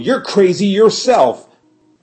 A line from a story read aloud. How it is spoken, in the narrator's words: yelled Lafcadio